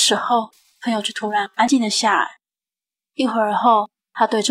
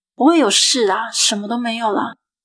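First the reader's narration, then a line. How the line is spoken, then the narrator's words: Rough angry roar. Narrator (Chinese): 我语气也开始变得粗暴，我对他大吼着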